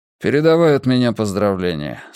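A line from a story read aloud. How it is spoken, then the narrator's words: Dry. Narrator (Russian): сухо добавил Мунк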